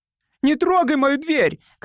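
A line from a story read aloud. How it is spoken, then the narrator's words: Shout. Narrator (Russian): крикнул он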